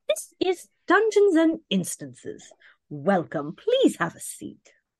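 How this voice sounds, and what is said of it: Posh old English accent. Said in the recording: “done in a very posh old English accent”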